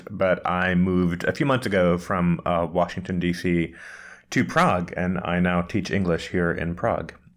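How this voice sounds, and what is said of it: American accent. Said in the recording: “I'm an American, as you can tell by the accent”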